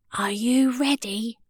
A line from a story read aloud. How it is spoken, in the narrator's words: whispered Maisie